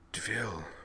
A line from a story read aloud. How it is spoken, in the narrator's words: whispered, appalled